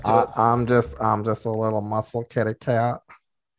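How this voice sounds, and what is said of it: Cutesy character voice. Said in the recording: “Do the Muscle Kitty voice.”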